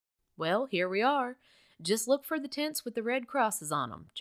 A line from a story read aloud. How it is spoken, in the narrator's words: John said